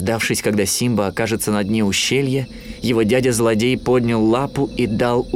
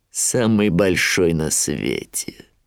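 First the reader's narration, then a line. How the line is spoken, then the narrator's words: Grim smirk. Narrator (Russian): мрачно ухмыльнулся Шрам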